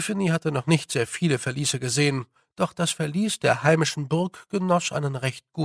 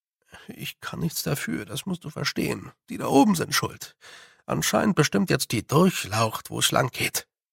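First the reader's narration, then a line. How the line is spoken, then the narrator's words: Lowered voice. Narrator (German): sagte er mit gesenkter Stimme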